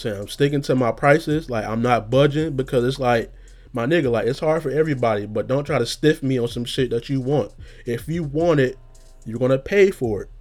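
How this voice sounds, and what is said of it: Angry, heated speaking tone. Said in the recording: “sorry, I sound so angry, but I am”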